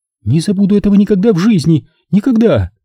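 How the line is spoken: Exclaimed in trembling voice. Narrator (Russian): воскликнула Нина дрожащим голосом

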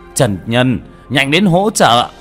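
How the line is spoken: Stunned shout. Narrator (Vietnamese): Vương Bá Ngôn ngẩn ra, la lên

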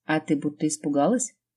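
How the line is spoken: Snorting, mocking. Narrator (Russian): хмыкнул этот Слава

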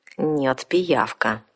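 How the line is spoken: Through gritted teeth. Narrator (Russian): сквозь зубы процедила наемница

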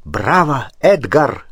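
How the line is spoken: Exclamation. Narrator (Russian): воскликнул он

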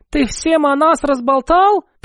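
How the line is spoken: Young lady squeaking. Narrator (Russian): пискнула барышня

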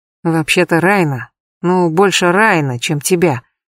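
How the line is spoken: Pained mumble. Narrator (Russian): все с тем же страдающим видом пробормотал Джаред

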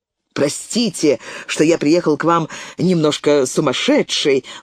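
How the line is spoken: Exclamation. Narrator (Russian): воскликнул

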